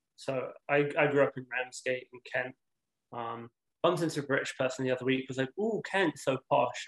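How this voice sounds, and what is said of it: British English accent. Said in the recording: “obviously from his accent, was born and raised in the UK”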